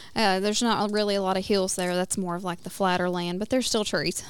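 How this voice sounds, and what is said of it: Southern American accent, West Tennessee. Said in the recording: “obviously by my accent, I was born and raised in Tennessee, in West Tennessee”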